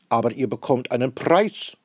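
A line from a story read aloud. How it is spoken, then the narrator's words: Stout man calling out. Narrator (German): ruft der dicke Herr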